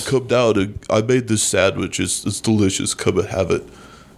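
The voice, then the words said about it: Deep voice imitating another person. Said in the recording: “I wish I could do a good H. John Benjamin impersonation ... You just got nothing but deeps.”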